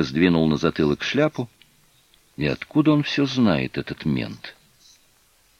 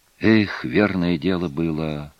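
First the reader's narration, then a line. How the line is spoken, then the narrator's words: Sighing boy. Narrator (Russian): вздохнул малец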